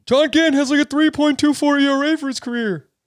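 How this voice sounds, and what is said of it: Imitates another person's voice. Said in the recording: “my Chris Sowers impression”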